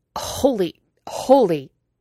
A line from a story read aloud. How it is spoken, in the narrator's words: he choked out